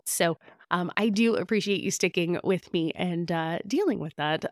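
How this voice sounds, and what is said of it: Raspy, slightly hoarse voice. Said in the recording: “my voice does seem a little raspy today ... I might be coming down with a little bit of a cold”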